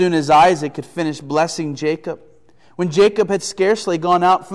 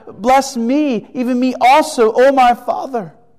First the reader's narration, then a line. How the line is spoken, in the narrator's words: he cried out with an exceedingly great and bitter cry and said to his father